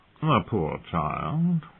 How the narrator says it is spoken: murmured Varys

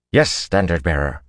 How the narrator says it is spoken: they snapped out as one

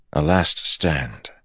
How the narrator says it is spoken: Matt said softly

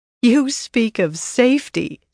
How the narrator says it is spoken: Savannah laughed

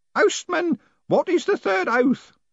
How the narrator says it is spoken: shouted Grote triumphantly

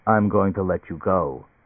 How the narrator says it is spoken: the gadget said

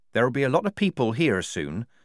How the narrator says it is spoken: said Polly, more calmly than she felt

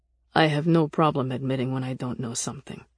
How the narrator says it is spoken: Nick said flatly

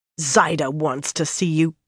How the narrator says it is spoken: Birgitta growled at Elaine

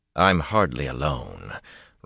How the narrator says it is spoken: Rand said dryly

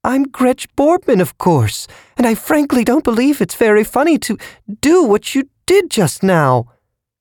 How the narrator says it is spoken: The eye-eater said, in a high-pitched voice, almost a squeal of indignation

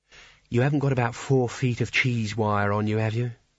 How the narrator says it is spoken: she said wistfully

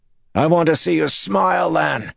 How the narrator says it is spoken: Andir shouted

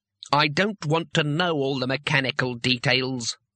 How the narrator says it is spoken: growled Trumon

